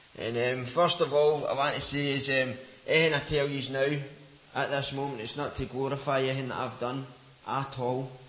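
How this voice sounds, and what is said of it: Glaswegian Scottish accent. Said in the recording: “as you can tell with my accent, I'm from Glasgow”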